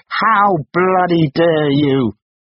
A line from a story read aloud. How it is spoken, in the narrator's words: was drowned by shouting